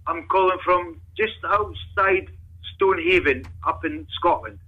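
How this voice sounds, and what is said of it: Scottish accent. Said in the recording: “Is that a real Scottish accent? That sounds like a fake ... Sounds real ... It's very Scottish.”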